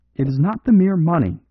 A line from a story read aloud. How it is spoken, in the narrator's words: he cried